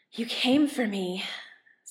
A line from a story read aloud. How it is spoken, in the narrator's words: Stiles says breathlessly